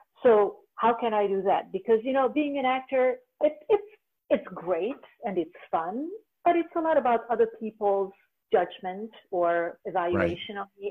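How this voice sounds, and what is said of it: Foreign accent. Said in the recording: “a 50 plus woman with a foreign accent”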